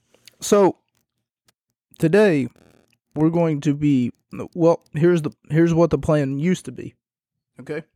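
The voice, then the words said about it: Hoarse, losing voice. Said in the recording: “I didn't realize I was losing my voice. I don't remember screaming at anyone.”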